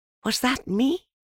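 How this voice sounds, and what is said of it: Awed, wondering voice. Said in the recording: “in an awed voice”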